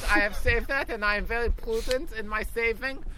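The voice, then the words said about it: Weird put-on German accent. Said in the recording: “That was a very weird German accent.”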